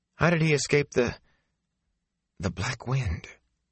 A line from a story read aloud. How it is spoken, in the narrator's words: Her voice shook